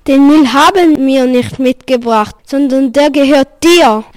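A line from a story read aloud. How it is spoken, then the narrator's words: Called out. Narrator (German): rief Fabian dem König zu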